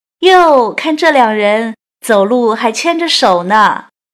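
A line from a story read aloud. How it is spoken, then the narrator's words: Loud teasing. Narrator (Chinese): 长舌妇大声调侃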